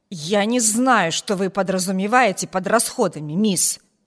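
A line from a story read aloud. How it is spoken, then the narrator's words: Angry growl. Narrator (Russian): прорычала она, как сердитая собака, готовая наброситься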